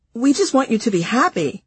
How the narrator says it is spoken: confused friends would say to me anxiously

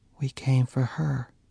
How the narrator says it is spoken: she said gently

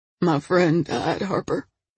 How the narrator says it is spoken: he said hoarsely

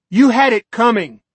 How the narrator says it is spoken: a woman cried out

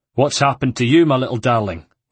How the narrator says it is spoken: he said in the harsh accent of the born Venetian

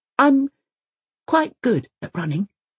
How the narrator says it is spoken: he says, quietly

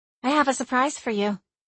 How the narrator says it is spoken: she said

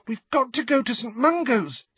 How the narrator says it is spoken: said Ginny urgently

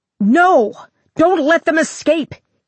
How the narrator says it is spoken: he cried

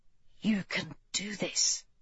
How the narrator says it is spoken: G whispered

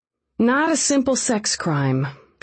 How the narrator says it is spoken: said with a sigh

